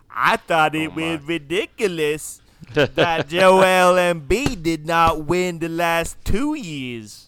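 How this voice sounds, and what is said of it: Imitates another person's voice. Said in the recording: “my best Kendrick Perkins impersonation ... Wasn't bad.”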